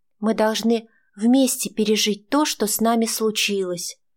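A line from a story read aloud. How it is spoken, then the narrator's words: Quiet. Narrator (Russian): тихо сказала Аня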